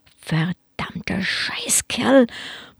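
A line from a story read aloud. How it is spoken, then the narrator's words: Muttering. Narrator (German): murmelte er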